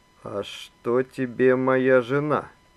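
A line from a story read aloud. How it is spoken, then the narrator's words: Ominously quiet question. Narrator (Russian): Зловеще тихо спросил Иван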